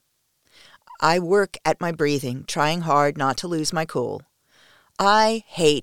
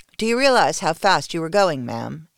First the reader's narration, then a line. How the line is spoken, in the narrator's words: he asks me